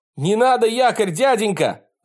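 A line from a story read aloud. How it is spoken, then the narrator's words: Shout. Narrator (Russian): закричал Ботан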